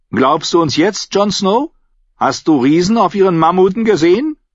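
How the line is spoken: Girl calling out. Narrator (German): rief das Mädchen, als sie ihn sah

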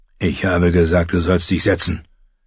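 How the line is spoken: Growled. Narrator (German): knurrte Mormont

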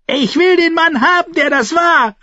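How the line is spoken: Calling out. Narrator (German): rief

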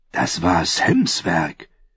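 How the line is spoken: Whisper. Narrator (German): Gren ihm zuflüsterte

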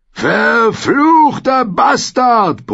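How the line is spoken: Bellowing in burning pain. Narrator (German): brüllte der Bluthund, als er spürte, wie das Feuer von hinten an seinen Schenkeln leckte

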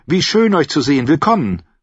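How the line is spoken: Called out. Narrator (German): rief

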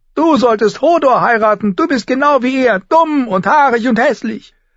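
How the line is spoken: Shouting. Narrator (German): schrie

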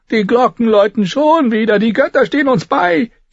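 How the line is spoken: Old woman wailing. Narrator (German): jammerte eine alte Frau

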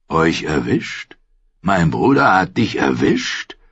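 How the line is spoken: Bitter booming hissing laugh. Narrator (German): musste er bitter lachen, halb dröhnend und halb fauchend

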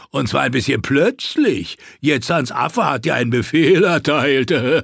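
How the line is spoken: Mocking. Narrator (German): spottete einer

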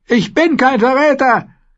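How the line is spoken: Shrieking prisoner. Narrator (German): kreischte der Gefangene

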